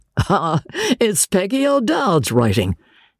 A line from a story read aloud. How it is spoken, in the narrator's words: said George, laughing